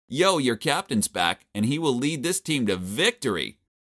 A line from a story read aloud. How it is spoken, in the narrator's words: shouted